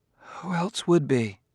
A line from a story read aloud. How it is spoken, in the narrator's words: she said with a sigh